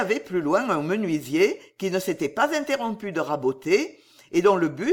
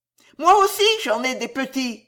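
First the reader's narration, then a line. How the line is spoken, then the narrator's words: Housewife shouting. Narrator (French): cria la ménagère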